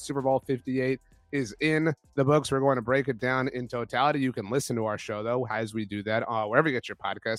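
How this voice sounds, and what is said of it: Strained, not fully recovered voice. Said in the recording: “as you can see, my voice is not fully recovered”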